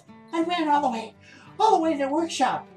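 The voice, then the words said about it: Out of breath, panting. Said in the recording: “Why you out of breath? ... almost out of wind from running all the way to the back of the workshop and back”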